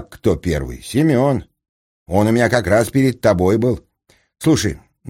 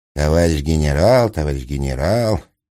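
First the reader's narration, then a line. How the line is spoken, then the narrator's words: Muttering. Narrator (Russian): пробормотал Капустин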